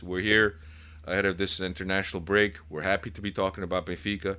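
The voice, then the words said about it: Hoarse voice from a chest cold. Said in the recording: “as you could hear by my voice, I've had a little bit of a chest cold ... especially with the way my voice sounded. Sounds a little better today, but still not there yet.”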